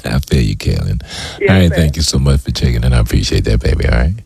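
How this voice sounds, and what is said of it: Sexy, alluring voice. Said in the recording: “That's a sexy voice you got.”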